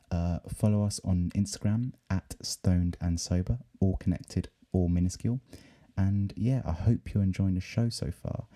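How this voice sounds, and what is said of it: Hoarse, worn-out voice. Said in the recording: “my voice is fucking gone. And it's 3 a.m.”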